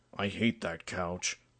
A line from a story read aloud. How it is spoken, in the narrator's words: he reluctantly mumbled